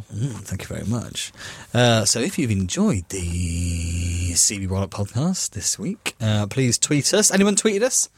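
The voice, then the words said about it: Tired, deep radio-style voice. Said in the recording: “I was so tired all the way through it ... this new sexy voice I've got as well. Tiredness is really... It's a real nice radio voice ... Northern Roger Moore”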